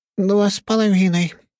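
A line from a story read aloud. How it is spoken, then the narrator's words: Moaning blonde. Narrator (Russian): простонала шара-блондинка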